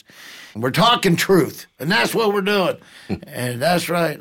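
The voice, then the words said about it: Regional accent coming through. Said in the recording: “I tried to do this whole thing without an accent, but here it came.”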